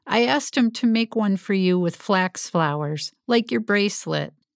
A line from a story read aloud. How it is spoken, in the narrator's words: Through her laughter, Laurel said